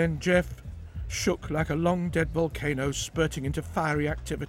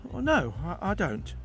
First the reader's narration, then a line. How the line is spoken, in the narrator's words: began calmly